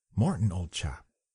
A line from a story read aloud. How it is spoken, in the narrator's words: Remembering that sometimes he walked in his sleep, he called to him gently